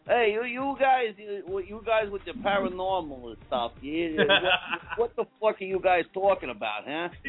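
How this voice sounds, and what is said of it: Put-on Brooklyn accent. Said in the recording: “I can actually do a pretty good impression. I can actually do a pretty good Brooklyn accent. ... You sound like Bruce Tango, man.”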